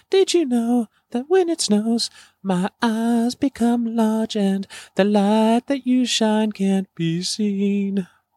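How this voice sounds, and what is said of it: Sings imitating another person's voice. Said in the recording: “That was my Seal impression.”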